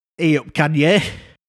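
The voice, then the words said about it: Yorkshire accent celebrity impression. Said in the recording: “a Yorkshire Kim Kardashian”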